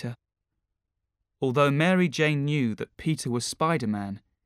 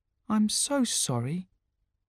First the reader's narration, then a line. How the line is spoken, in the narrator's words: said MJ softly